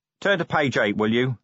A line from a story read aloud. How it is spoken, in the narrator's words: said Vimes grimly